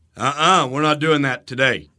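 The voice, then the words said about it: Stern, scary dad voice. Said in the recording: “scary dad voice ... if I use scary dad voice like that”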